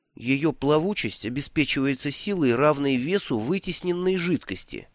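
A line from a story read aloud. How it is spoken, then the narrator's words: Listless mumble. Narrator (Russian): вяло пробормотал Бруто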